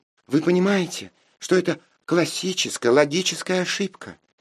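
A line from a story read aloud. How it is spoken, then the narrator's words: Charming child's treble squeak. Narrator (Russian): Очаровательным дискантом пищал вундеркинд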